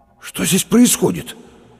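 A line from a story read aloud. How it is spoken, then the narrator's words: Forced out after pause. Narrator (Russian): выдавил через минуту Лопатиков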